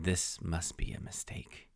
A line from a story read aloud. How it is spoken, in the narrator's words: The pointed hat man muttered